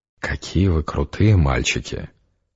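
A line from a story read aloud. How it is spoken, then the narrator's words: Purring. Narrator (Russian): промурлыкала я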